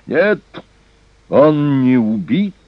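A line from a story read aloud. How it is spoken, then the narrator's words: Menacing, loud cry. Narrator (Russian): грозно и громко вскричал Хелхаль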